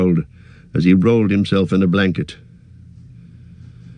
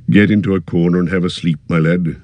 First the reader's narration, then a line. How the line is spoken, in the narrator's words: said in a kinder tone